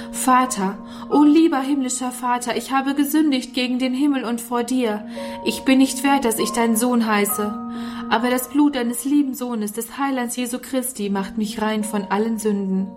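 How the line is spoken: Anguished cry into night. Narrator (German): rief in die schreckliche Nacht hinaus

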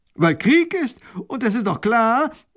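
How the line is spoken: Minister interrupting call. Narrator (German): der erste Minister ruft dazwischen

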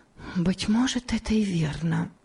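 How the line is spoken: Whisper to herself. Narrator (Russian): прошептала она про себя

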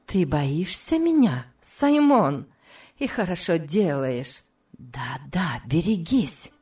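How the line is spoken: Hissing whisper at ear. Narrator (Russian): Последние слова она произнесла свистящим шепотом у самого его уха

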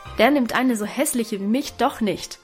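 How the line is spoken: Exclaimed. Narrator (German): rief Guste

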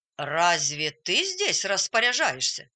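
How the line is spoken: Stern teacher asking. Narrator (Russian): строго спросил учитель

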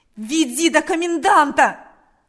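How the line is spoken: Shouting repeatedly. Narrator (Russian): кричал Степан снова и снова

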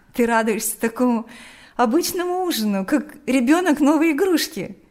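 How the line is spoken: Laughing. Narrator (Russian): смеялась Лика

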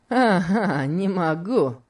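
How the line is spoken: Mocking. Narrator (Russian): сказал Легри насмешливо

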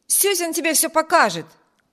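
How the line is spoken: Shouted. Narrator (Russian): крикнул Виберт

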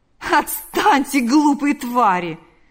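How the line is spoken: Laughing. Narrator (Russian): сказал, рассмеявшись, Лукьян

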